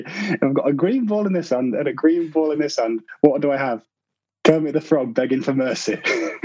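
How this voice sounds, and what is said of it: Broad Scarborough accent. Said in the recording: “he had this broad Scarborough accent.”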